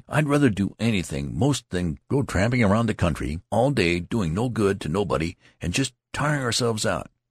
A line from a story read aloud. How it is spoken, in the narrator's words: cried the youth